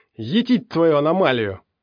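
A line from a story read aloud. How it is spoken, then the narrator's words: Angry bark. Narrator (Russian): рявкнул Пригоршня в сердцах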